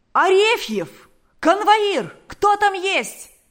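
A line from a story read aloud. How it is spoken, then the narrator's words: Shouting. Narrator (Russian): закричал Паисий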